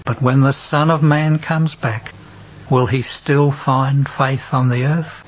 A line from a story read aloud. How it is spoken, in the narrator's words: with a sigh